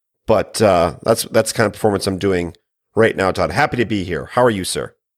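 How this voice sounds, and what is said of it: Raspy, sick-sounding voice. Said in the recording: “I'm struggling through this week. I think I'll call this my Angie Harmon voice, the raspy Law and Order lawyer”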